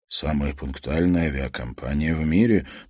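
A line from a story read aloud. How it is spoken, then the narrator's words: Muttering. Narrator (Russian): пробормотал Турт Шульц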